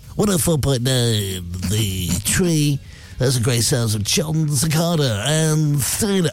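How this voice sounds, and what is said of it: Exaggerated radio DJ voice. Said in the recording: “They have this weird radio voice.”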